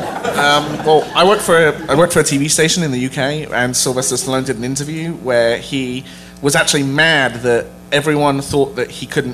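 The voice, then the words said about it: English accent. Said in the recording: “We heard your accent. We get it.”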